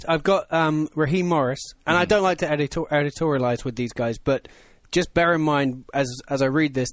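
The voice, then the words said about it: Elegant English accent. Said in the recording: “your elegant English voice ... that nice accent”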